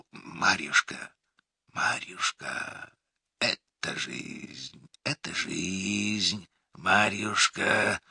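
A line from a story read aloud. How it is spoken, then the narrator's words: Whisper. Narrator (Russian): Он зашептал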